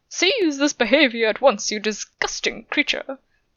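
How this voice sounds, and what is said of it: Terrible put-on British accent. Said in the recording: “in a curiously out-of-place, terrible British accent”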